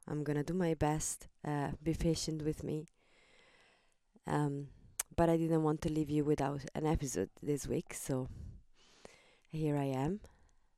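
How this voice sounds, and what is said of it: Low, weak voice. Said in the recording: “my voice is a little bit low”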